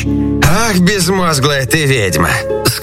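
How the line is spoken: Plain. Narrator (Russian): сказал Иван-царевич бабе-яге

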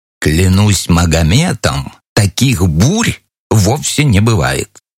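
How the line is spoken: Rude whisper. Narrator (Russian): зашел так далеко в своей невежливости, что шепнул на ухо соседу

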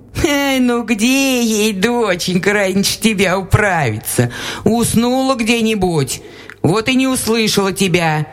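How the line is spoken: Laughing old woman. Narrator (Russian): засмеялась баба

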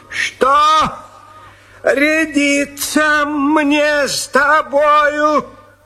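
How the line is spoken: Shouted. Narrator (Russian): закричал

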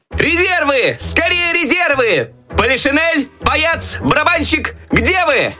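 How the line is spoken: Desperate shout for help. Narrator (Russian): отчаянно кричал Щелкунчик, надеясь на помощь еще оставшихся в шкафу войск

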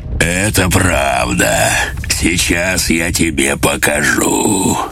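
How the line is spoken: Pleased deep bass voice. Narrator (Russian): Он с удовольствием ответил басом

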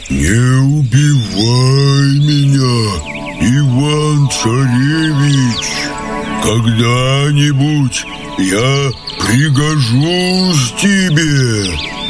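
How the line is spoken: Bear with human voice. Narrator (Russian): медведь вдруг и говорит ему человеческим голосом

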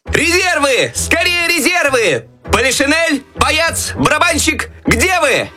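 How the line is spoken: Desperate shouting for help. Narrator (Russian): Так отчаянно кричал Щелкунчик, надеясь на помощь еще оставшихся в шкафу войск

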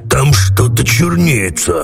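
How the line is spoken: Hoarse rasp. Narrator (Russian): прохрипел Карабас-Барабас

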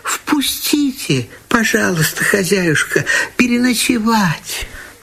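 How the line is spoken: Small plaintive voice. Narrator (Russian): маленькая береговушка просит жалобным голоском

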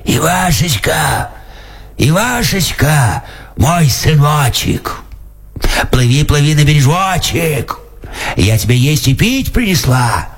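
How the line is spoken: Hoarse shout. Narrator (Russian): она кричит хриплым голосом

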